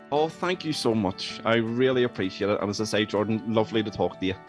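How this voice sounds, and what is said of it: Speaks with a noticeable accent. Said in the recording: “Love the accent, by the way.”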